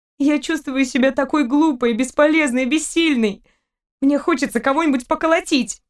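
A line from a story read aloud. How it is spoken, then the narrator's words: Tossed remark, girl. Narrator (Russian): Кинула ему девушка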